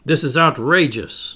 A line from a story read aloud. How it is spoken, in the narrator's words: Ned Land shouted, exploding for the 20th time